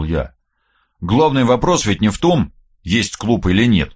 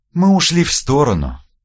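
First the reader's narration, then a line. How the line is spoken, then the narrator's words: Sighing. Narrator (Russian): вздохнула Вербицкая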